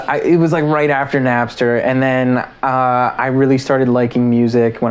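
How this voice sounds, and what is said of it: Usual voice. Nothing is said of it.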